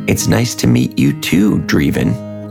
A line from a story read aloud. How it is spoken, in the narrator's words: replied Wanda